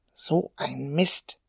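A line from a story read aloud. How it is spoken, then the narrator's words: Muttering. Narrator (German): murmelte er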